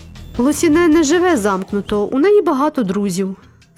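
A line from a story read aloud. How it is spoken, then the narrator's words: Plain. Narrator (Ukrainian): сказав це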